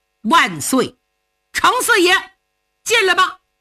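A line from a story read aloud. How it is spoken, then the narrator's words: Shouting. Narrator (Chinese): 林中有人喊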